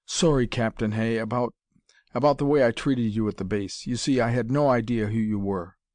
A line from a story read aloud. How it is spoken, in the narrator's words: Lance stammered